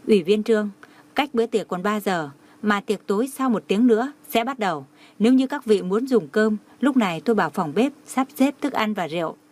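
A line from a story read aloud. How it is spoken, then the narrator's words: Smiling. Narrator (Vietnamese): Lau Rần mỉm cười nói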